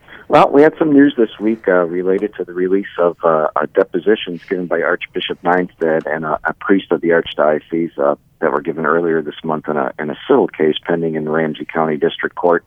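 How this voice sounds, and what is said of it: Slightly hoarse voice. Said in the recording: “my voice sounds a little hoarse”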